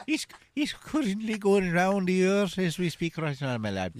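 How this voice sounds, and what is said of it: Put-on old Irish woman's voice. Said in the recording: “he sounds like an old Irish woman”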